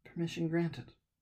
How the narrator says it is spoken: she muttered

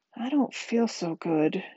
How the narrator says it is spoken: she said weakly

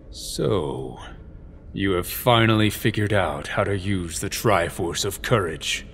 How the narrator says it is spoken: Halvard said coolly

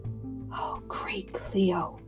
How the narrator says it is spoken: whispered Catherine, seeing for the first time what Father's sword had done

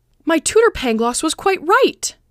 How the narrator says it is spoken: exclaimed

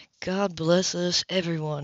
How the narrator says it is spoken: he murmured

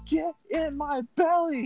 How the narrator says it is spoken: he kept yelling at it over and over again

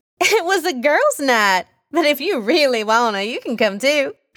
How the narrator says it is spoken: laughed out

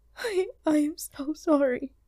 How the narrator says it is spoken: she sobbed

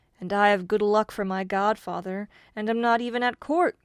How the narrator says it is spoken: cried the farmer

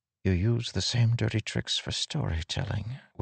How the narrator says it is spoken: Wit whispered

